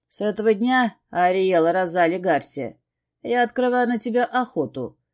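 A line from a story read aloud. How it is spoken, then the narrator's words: Scarily calm smirk. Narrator (Russian): хмыкнул устрашающе спокойно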